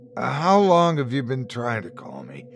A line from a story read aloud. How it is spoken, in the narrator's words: said, his voice crackling